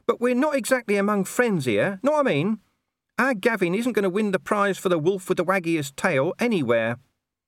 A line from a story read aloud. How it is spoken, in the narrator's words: whined Gaspode